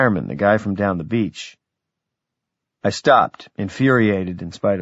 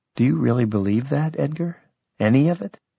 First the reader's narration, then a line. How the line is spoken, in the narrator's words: she said, in a new and cautious voice